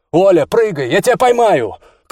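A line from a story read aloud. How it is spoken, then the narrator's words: Shout over noise. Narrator (Russian): крикнул он, стараясь перекричать шум лопастей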